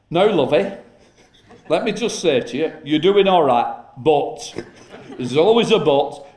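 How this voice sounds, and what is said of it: Imitated Yorkshire accent. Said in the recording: “from the north, Yorkshire accent”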